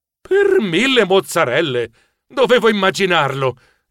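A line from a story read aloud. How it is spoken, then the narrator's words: Exclaiming. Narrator (Italian): esclamai scuotendo la testa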